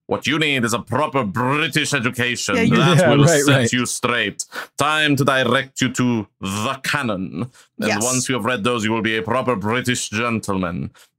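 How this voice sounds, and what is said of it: Put-on accent, hard to place. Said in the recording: “I don't even know what accent that was”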